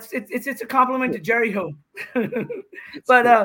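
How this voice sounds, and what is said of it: Usual voice. Nothing is said of it.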